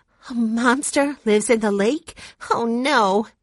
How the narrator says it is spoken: gasped Violet

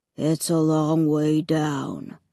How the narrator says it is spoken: rumbled

